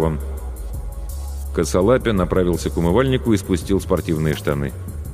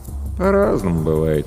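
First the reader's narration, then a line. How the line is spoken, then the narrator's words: Lazy reply. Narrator (Russian): лениво отозвался Денис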